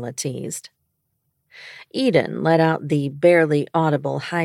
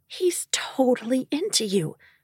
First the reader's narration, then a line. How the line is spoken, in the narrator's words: she whispered knowledgeably